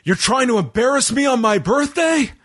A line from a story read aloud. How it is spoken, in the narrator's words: Priest yells